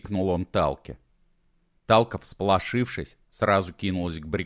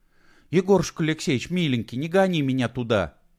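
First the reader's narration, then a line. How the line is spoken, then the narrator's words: Pleading. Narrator (Russian): взмолилась она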